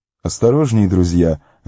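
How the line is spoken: Laughed. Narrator (Russian): рассмеялся Гилдор

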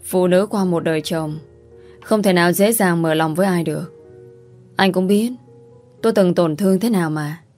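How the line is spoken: Sighing reply. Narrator (Vietnamese): Cô thở dài đáp

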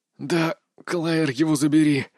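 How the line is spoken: Hoarse exhale. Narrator (Russian): хрипло выдохнул я

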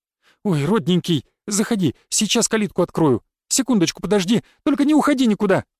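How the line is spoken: Flustered breathless babble. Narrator (Russian): Схватившись за сердце, пролепетала Зинаида

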